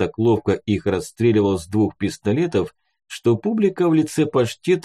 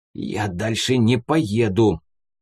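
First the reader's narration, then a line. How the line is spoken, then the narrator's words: Hoarse through teeth. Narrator (Russian): просипел сквозь зубы киллер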